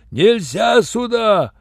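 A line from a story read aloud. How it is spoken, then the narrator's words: Yelled. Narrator (Russian): заорал Юренев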